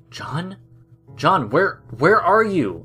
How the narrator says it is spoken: James stuttered

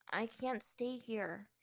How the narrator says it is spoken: Aang said quietly

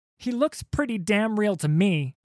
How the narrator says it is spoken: shouted Sarah, over the cacophony of smashing wood, tearing sails, and terrified screams

